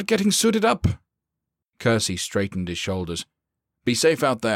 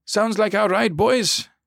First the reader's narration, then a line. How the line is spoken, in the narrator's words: he barked